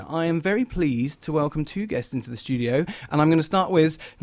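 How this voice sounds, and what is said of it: English accent. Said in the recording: “you'll notice the English accent is back”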